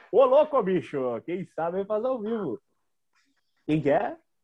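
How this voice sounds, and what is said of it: Imitates a TV show host's voice. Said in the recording (Portuguese): “a tua imitação que foi meio Silvio Santos com o bordão do Faustão”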